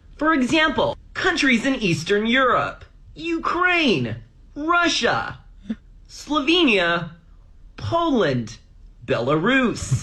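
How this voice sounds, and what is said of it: American newscaster voice, overpronounced, higher pitch. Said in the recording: “American newscasters will often overpronounce their words. When listing things, they'll often use a higher pitch. ... He's good at the accents, too.”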